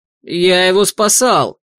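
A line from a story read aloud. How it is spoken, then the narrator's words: Roar. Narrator (Russian): взревел Алекс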